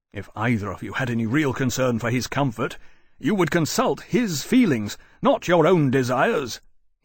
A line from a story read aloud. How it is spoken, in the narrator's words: he said, his voice rising, a voice which had been trained to bellow orders through a gale